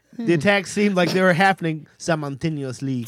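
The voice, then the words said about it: Put-on French accent. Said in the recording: “Doing the French accent ... with the accent, it's like, oh, it's not his first language”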